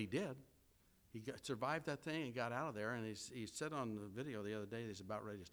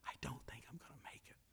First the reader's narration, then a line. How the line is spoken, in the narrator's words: he whispered in her ear